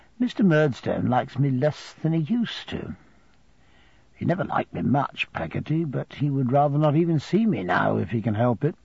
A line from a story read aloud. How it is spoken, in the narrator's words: I said in a thoughtful whisper